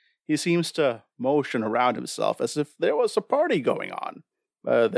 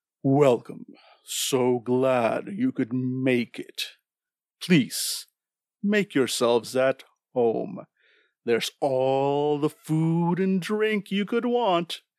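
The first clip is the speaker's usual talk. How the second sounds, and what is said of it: Deep character voice. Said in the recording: “you hear a deep voice coming from this being”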